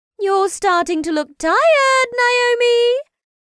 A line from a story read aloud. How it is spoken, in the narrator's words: Lily taunted, hidden within the trees